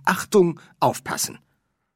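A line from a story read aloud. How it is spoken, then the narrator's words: Warning shout. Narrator (German): eine warnende Stimme erklang und rief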